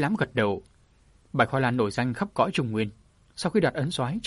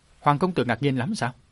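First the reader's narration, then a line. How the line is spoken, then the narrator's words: Smiling. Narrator (Vietnamese): Hoa Lan cung chủ mỉm cười nói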